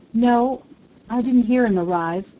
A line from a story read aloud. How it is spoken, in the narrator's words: Flora Miles faltered